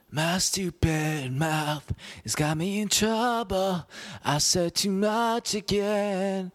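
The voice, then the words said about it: Sung imitation of a singer's voice. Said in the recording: “I tried to do a John Mayer impression ... I can't do a John Mayer”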